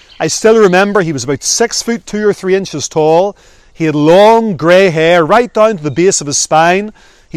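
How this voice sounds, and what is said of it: Northern Irish accent. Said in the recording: “my Northern Ireland accent”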